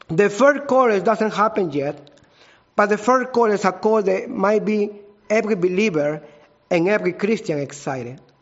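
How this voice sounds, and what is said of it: Strong non-native English accent. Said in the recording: “you have to patient with my accents. I have a strong accents.”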